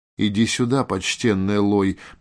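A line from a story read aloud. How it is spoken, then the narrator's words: Forced calm, mage. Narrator (Russian): по возможности спокойно отозвался маг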